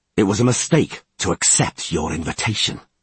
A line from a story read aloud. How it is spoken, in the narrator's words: Geralt replied coldly